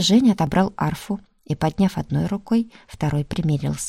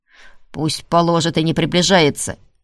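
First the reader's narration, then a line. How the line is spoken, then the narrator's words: Man barking. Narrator (Russian): рявкнул тип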